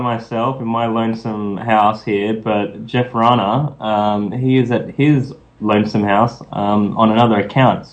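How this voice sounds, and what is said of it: Noticeable accent. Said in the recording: “Listen to that accent... Pretty sexy, huh?”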